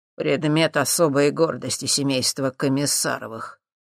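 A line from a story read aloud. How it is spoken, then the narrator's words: Snorting smirk. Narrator (Russian): хмыкнул Юрий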